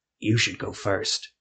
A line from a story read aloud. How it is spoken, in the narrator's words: Jeremiah whispered